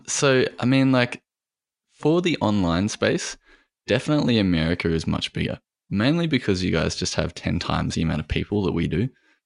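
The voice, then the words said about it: Australian accent. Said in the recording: “this guy's got a cool accent. And then you say you're from Australia.”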